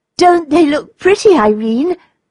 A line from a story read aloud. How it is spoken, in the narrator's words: cried the little girl